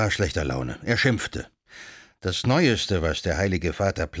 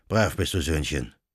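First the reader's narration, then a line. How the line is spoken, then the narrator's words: Canon's murmur. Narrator (German): murmelte der Kanonikus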